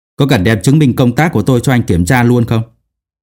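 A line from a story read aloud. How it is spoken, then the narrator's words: Angry. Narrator (Vietnamese): Phương Mộc tức giận nói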